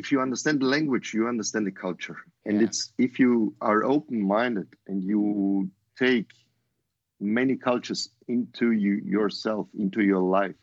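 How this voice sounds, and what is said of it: Austrian-accented English. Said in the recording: “sorry my accent ... I'm Austrian, I'm born in Austria”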